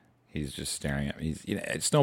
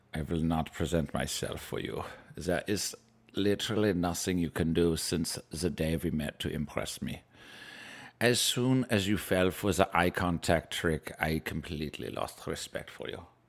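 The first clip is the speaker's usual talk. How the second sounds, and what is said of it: Put-on German accent, pet character. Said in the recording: “Snowball has a German accent.”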